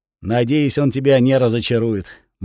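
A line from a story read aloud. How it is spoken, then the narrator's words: Grim, tearful. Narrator (Russian): мрачно сказал плачущий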